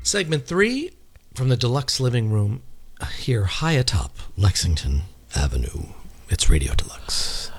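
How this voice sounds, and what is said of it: Polished announcer radio voice. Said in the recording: “You're really getting that radio voice down.”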